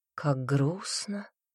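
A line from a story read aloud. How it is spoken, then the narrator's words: Shaky sigh. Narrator (Russian): леди Камилла прерывисто вздохнула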